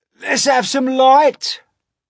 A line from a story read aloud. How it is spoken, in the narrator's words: shouted the centipede